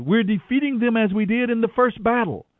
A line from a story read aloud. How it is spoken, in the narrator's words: the warriors of Benjamin shouted